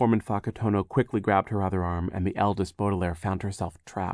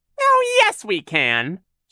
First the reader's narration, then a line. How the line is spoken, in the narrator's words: Shirley said in her silly high voice